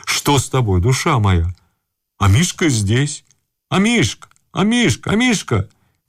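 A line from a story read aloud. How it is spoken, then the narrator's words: Old man shouting, lip-smacking. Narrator (Russian): кричал старичок, причмокивая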